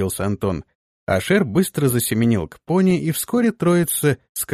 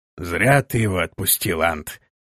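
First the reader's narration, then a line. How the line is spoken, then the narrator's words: Grumbled. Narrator (Russian): проворчал Торвелл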